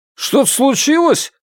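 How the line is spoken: Guard shouting. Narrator (Russian): крикнул охранник

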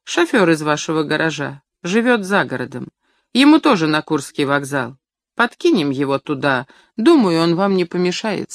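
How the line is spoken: Calm reply. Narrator (Russian): спокойно ответил водитель

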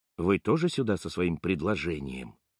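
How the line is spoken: Whispered question. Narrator (Russian): шепотом спрашивает он

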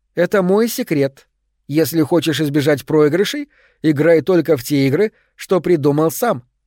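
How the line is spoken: Plain. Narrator (Russian): сказала она

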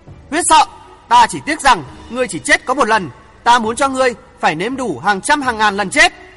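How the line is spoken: Emperor's loud shout. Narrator (Vietnamese): Hoàng thượng chí hét lớn

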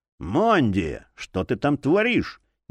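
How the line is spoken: Displeased exhale. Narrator (Russian): недовольно выдохнул алхимик

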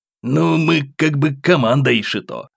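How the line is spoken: Displeased mumble. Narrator (Russian): недовольно пробурчал Джо

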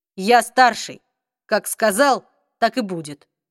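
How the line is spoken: Even retort. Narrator (Russian): ровным голосом парировал Алик

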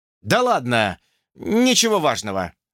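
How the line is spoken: Strained forced words. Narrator (Russian): выдавил

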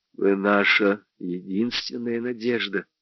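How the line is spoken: Suddenly low voice. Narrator (Russian): сказал он внезапно низким голосом

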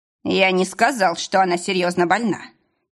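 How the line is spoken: Sharp objection. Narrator (Russian): резко возразил Джон

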